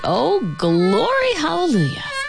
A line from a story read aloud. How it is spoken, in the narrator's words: she moaned in time with the beat